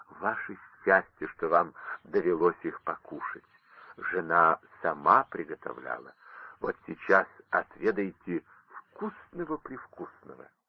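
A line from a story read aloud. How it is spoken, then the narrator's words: Old man whispering greedily. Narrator (Russian): старик шептал мне на ухо с видом лакомки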